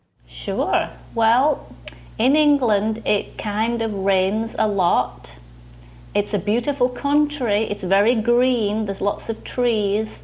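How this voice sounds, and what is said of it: English accent. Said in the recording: “a little country way over the Atlantic Ocean. It's called England... that's why I sound different... I think it sounds great”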